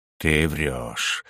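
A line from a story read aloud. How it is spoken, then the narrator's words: Flat colorless voice. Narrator (Russian): бесцветным голосом ответил мне Шакрен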